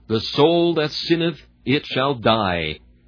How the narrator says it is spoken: It thunders out without the slightest mitigation

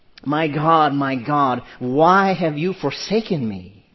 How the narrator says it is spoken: Jesus from the cross cried out

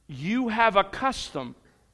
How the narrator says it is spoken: Pilate says

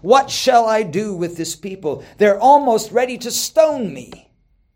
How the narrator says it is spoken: Moses cried out to the Lord saying

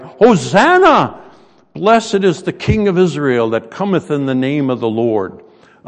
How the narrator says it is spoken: they cried

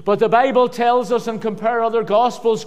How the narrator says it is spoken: Christ shouted

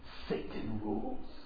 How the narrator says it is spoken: He hissed and said

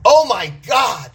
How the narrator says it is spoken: I yelled

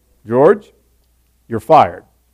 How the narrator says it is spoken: the boss just very calmly says to him

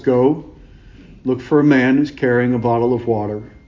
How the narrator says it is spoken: Jesus who says calmly

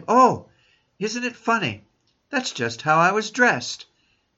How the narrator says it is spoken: she exclaimed

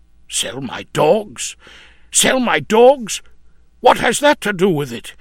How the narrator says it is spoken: exclaimed

